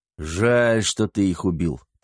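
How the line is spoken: Grumbling. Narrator (Russian): проворчал Косой

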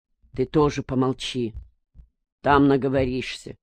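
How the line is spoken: Grumbled. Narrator (Russian): буркнул Матвей

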